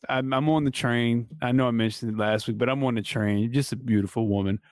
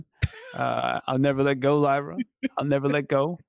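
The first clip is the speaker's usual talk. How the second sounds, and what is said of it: Titanic movie line impression. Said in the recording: “her best Titanic impression.”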